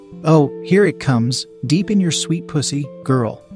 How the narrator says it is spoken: he says

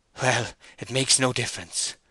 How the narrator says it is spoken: Boldwood gasped

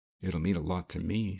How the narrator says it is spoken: she said quietly

